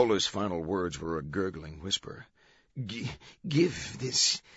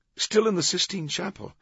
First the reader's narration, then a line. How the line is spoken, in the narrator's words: Chartrand exclaimed